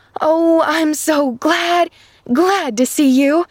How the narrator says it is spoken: cried an eager voice in her ear

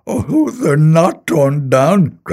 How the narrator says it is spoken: cried Scrooge

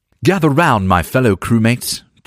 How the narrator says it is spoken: Jason called out

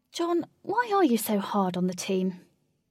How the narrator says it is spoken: decided to be direct and said calmly

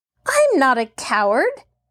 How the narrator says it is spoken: Mary retorted hotly

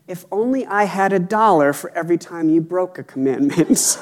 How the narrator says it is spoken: calmly said

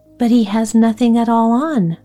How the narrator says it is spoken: at last cried out all the people

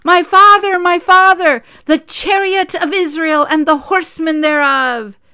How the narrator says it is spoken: He cried out

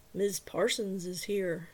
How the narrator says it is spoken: Travis said flatly

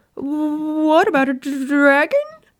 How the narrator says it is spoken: Peter sputtered out

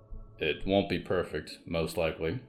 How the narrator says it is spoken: her father said

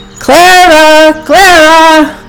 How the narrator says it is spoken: the two shouted again

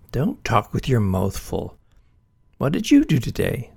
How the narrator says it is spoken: said her mother

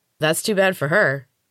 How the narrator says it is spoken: the other replied

